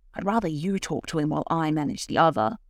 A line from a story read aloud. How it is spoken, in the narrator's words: said Cora